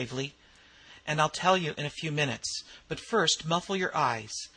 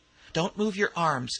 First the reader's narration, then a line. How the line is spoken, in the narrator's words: exclaimed McClellan sharply